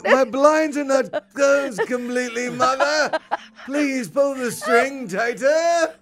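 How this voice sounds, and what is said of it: Put-on English accent. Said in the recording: “he becomes English”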